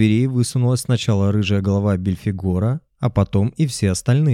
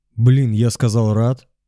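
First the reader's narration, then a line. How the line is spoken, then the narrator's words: Exclaimed. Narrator (Russian): воскликнул Астарот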